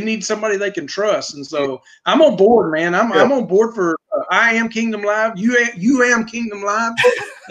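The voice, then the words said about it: Rural Texas accent. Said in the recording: “in case you couldn't tell from my accent, I'm out here in the country. I'm living in Decatur, Texas”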